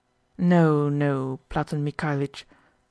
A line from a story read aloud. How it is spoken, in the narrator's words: sighed Khlobuev